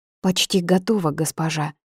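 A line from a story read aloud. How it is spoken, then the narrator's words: Breathy, young woman. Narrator (Russian): выдохнула девушка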